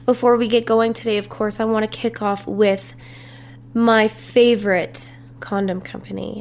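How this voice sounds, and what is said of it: Congested, stuffy-nosed voice. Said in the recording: “tell in my voice. I feel like I sound a little congested”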